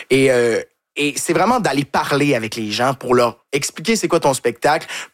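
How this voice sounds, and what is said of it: Québécois French accent. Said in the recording (French): “du fait qu'on est Québécois aussi ... c'est un accent qu'ils sont pas habitués d'entendre”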